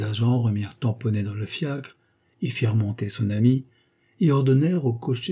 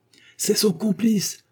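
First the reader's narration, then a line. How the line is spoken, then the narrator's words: Crowd shouting. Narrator (French): cria la foule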